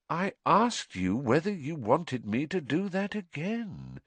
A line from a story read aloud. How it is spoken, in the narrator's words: said Voldemort softly